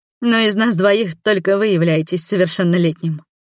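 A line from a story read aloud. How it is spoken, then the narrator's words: Chuckling. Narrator (Russian): хохотнула я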